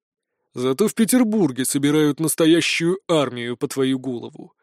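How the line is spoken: Gloomy objection. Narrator (Russian): мрачно возразил мой собеседник

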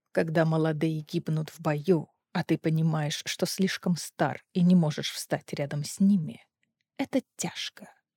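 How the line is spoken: Quiet speech. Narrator (Russian): тихо сказал Дара

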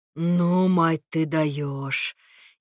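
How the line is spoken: Sincere delighted drawl. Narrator (Russian): Искренне, не скрывая извращенного восторга, протянул Костя

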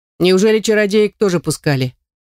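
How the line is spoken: Smirking scoff, student. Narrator (Russian): хмыкнул один из студентов

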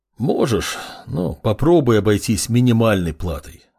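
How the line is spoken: Cripple sighing. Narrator (Russian): вздохнул калека

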